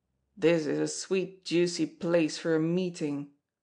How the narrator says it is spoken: Little Sweeney's voice grumbled

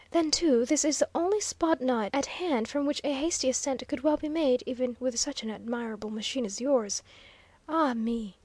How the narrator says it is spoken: With a long breath which lacked but little of being a sigh

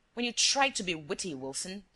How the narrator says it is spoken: snarled Shears

